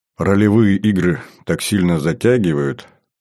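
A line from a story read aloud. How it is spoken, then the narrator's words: Repentant tone. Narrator (Russian): покаянным тоном произнес я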